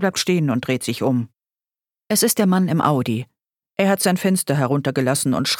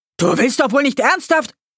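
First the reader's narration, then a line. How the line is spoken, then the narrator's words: Man roaring. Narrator (German): Der Mann brüllt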